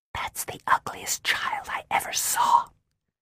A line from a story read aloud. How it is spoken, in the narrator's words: Daphne whispered to me